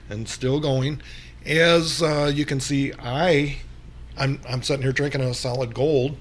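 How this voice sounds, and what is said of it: Hoarse, losing voice. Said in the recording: “That's not what's got my throat like this. I'm not sure why I'm losing my voice”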